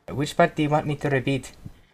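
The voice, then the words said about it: Heavy put-on accent. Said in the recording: “Your accent is quite heavy.”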